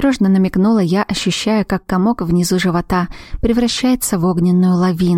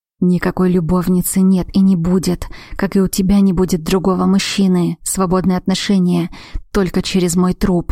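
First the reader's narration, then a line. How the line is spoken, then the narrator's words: Growl into ear. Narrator (Russian): рыкнул Дрейк мне в ухо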